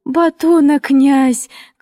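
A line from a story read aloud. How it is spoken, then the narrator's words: Screaming through convulsive sobs. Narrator (Russian): кричала она, вся извиваясь в судорожных рыданиях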